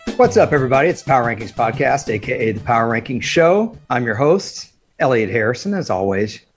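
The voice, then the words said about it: Raspy voice. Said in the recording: “It's a little raspy. It's a little Stevie Nicks-ish.”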